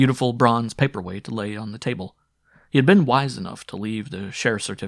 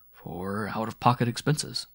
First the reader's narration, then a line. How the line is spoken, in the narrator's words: murmuring